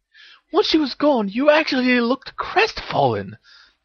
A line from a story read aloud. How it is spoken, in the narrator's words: exclaimed Hermione